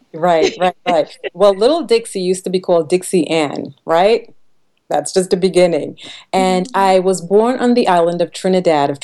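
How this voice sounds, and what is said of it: Noticeable non-American accent. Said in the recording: “we hear an accent”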